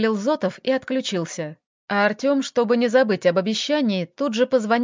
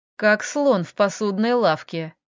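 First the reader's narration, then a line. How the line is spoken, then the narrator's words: Snort. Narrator (Russian): фыркнул Артём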